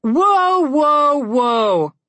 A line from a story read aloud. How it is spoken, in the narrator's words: Connor yelled from the back